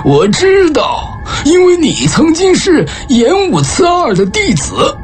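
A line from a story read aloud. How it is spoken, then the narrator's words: Smiling. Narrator (Chinese): 老钱笑着说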